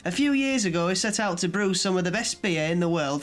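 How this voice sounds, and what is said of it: Put-on northern English accent. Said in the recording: “you're going to read it in a northern accent.”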